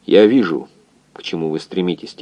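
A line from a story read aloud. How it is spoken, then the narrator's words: Low tired voice. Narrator (Russian): тем же низким усталым голосом сказал доктор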